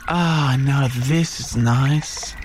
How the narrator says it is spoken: sighed the yaoi

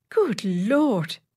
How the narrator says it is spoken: exclaimed the secretary

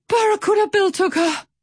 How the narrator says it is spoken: Pip wheezed

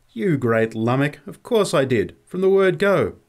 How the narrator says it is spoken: There was something of the old tone in her voice when she laughingly replied

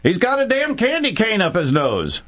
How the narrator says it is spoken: She shouted

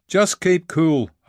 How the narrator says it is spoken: shouted

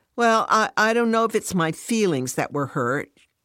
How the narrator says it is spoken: she stammers

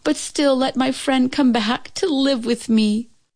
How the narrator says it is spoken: she cried to heaven

